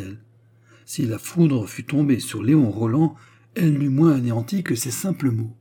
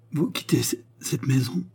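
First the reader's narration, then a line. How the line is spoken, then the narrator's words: Stammering in disbelief. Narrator (French): balbutia-t-il comme un homme qui a mal entendu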